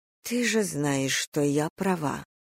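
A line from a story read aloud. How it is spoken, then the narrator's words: Whispered. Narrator (Russian): шепнула я Мурхе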